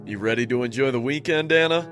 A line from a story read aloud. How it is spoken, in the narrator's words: he said in a jovial tone